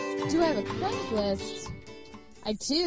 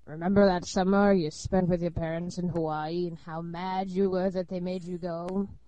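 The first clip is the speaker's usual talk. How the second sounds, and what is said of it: Creepy old man voice. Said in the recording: “Should I do it in my creepy old man voice?”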